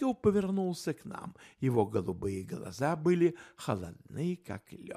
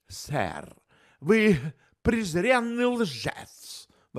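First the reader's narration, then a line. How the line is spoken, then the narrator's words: Exclaiming. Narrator (Russian): воскликнул он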